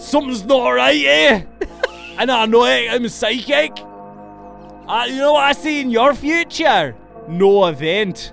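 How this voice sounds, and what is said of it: Put-on Scottish accent. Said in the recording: “they were Scottish, so it would have sounded like ... my flawless Scottish accent, which we've had several legitimate complaints about”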